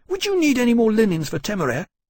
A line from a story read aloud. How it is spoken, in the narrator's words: he asked eagerly